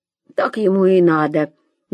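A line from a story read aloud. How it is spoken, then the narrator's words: Grumble. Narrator (Russian): буркнул Шурик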